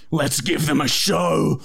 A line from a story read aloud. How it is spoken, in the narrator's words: I said through gritted teeth